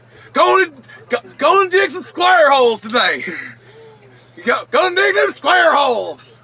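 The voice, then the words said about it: Imitates another person's voice. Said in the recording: “I'm working on my pickle. I'm getting there... It's close. It's close. You got some more work to do... I got some more work on my accent.”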